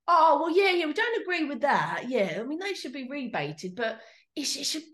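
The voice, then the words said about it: Attempted New York accent, sounding Cockney. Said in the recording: “a New York accent has now turned into Cockney ... You had a Cockney accent ... imagine, if you will, a New York accent, not Cockney”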